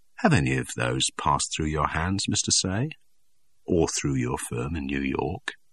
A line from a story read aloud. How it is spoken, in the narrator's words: he inquired softly